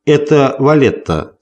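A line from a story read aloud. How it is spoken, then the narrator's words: Plain. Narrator (Russian): сказал Таути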